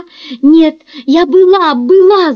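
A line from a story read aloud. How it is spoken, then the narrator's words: Shouting. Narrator (Russian): закричала Марси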